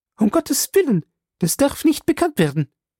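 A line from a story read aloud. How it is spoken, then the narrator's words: Sharp call. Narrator (German): rief scharf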